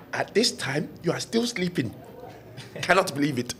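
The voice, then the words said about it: Put-on African accent. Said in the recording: “like an African accent”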